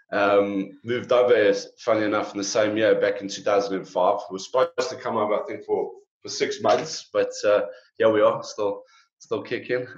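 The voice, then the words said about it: South African accent. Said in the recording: “I'm sure you can hear by the accents, it's a giveaway. We're from South Africa.”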